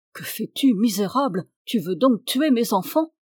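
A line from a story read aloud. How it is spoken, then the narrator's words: Lord, furious exclamation. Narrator (French): s'écria le seigneur furieux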